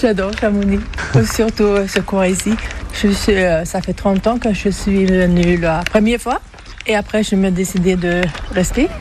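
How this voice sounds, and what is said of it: Swedish accent speaking French. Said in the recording (French): “d'où vous vient cet accent ? ... Suédoise.”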